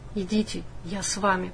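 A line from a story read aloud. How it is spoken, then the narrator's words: Whisper. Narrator (Russian): прошептал Брок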